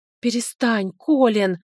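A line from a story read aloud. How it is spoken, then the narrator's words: Desperate plea. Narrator (Russian): взмолилась я, в отчаянии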